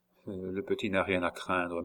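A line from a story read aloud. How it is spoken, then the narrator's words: Murmured. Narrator (French): murmura-t-il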